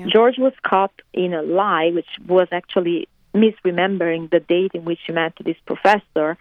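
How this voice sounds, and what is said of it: Italian accent with mixed influences. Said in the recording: “you can hear my accent, of course. I'm Italian ... I don't know if my accent sounds typical Italian something else ... my accent is contaminated by many other notes”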